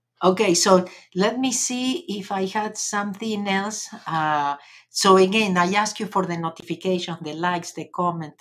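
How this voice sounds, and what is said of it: Argentinian accent in English. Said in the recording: “you come to here to do a English course with a Argentinian accent”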